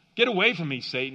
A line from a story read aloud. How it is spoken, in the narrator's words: said